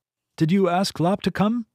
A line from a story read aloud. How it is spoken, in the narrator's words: Zirheen said, laughing